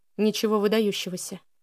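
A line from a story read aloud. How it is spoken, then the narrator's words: Flat, even voice. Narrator (Russian): ровным голосом произнес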